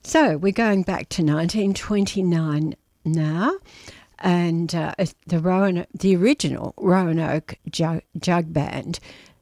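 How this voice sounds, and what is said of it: Croaky, not-quite-normal voice. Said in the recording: “You can hear that in my voice, can't you? Which, in fact, is not quite back to normal. I think it's a bit croaky”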